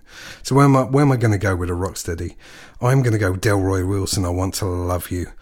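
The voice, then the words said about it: Husky, hoarse voice. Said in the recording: “I really lost my voice today because I've had a couple of days of having a cold... I'm feeling very husky”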